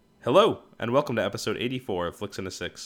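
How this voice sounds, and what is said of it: Loud, yelling greeting. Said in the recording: “That was an aggressive hello ... I don't know why I'm yelling at you”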